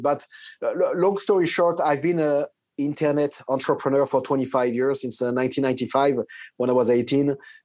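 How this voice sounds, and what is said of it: French-accented English. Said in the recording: “French, obviously, with this accent.”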